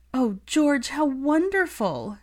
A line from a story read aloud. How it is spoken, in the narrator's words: she choked out